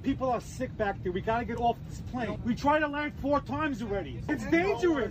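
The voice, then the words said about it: Speaks with a noticeable accent. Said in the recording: “I like his accent, too.”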